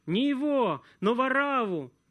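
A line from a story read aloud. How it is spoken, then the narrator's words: Crowd shouting. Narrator (Russian): закричали все, говоря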